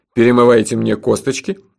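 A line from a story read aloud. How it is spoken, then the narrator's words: Cheerful question. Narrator (Russian): бодро спросил герой городского фольклора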